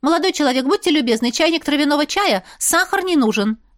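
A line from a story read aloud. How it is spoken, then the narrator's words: Rapid patter. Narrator (Russian): протараторила она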